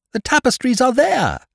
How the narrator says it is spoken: cried someone

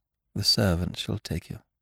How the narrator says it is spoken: she murmured, averting her head

